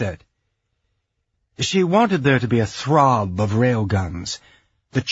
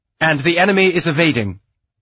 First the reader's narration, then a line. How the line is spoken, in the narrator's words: reported, her voice sharp